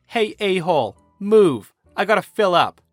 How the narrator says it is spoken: the driver shouts out of his window

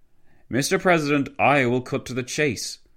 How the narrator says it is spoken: exclaimed a raspy voice which Wilson had yet to hear

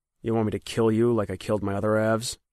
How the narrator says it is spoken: he asked in a flat voice

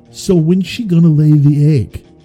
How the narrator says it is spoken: shout

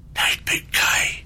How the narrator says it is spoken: he whispered

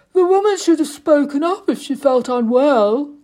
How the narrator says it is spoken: grunted Flippoon

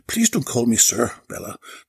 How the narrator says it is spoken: Tony chuckled

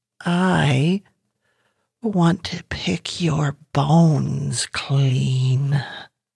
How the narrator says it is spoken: ground rumbled

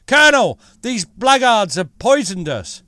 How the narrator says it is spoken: called out

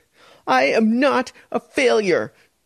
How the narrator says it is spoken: she yelled, her voice bouncing back against the high ceiling

